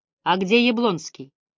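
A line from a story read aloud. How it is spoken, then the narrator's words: Dry question. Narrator (Russian): сухо поинтересовался я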